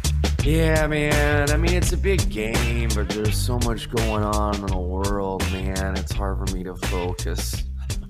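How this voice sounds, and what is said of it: Lazy drawling stoner voice. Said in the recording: “I'm talking like a stoner”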